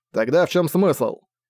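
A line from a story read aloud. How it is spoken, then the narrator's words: Irritated question. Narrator (Russian): раздраженно спросил Зак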